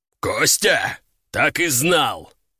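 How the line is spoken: Growled. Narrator (Russian): рыкнул Лежаков

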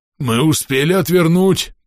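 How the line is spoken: Hoarse wheeze. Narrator (Russian): просипел Клест

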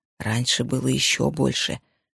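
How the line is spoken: Whisper. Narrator (Russian): прошептала она

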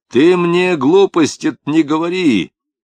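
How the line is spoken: Sudden shout. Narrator (Russian): крикнул вдруг Лапшин

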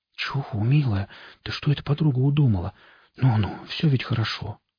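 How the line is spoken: Whisper in the ear. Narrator (Russian): шептал он ей на ухо

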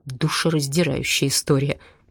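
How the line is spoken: Muttered with chuckle. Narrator (Russian): пробормотал со смешком Дима

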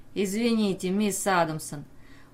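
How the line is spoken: Loud laughter. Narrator (Russian): Флеминг захохотал

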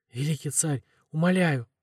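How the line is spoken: Hoarse tearful pleading. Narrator (Russian): выхрипывал Мардук, и слезы горошинами катились по заросшим бородой щекам

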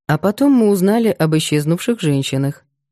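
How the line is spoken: Calm. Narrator (Russian): спокойно продолжал Макар

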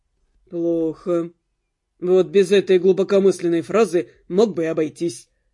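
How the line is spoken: Grumbling. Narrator (Russian): проворчал Дэн

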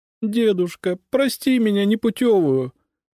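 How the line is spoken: Sobbing. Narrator (Russian): всхлипывая, говорила Катя

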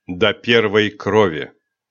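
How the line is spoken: Cold declaration. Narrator (Russian): холодно заявил Рионар

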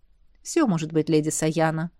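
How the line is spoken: Gentle, affectionate. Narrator (Russian): ласково ответил этот ящер

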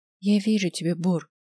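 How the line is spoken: Quiet. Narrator (Russian): тихо сказала Ева

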